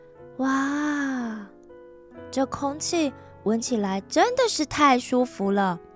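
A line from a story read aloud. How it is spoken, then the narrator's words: Involuntary delighted exclamation. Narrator (Chinese): 罗拉不由自主的感叹的说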